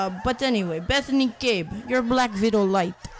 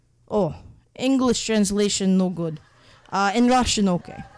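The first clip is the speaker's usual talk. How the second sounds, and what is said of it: Put-on Russian accent. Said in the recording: “killer Russian accent.”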